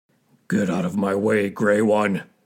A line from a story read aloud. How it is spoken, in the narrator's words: growled Bear